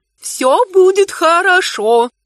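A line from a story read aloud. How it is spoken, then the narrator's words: Soothing purr. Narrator (Russian): успокаивающе промурлыкала тетя Кармира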